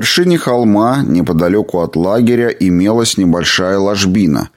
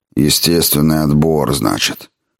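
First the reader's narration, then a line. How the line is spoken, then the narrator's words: Mutter. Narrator (Russian): пробормотал доктор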